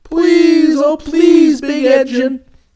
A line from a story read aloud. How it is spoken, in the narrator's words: cried all the dolls and toys together